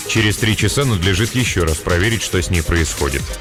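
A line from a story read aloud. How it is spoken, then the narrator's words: Perfectly calm. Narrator (Russian): сказал он абсолютно спокойно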